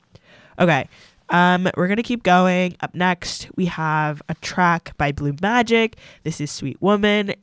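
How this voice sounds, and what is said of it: Stuffy, congested voice. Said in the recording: “my voice is sounding really stuffy ... I've like caught some really bizarre cold”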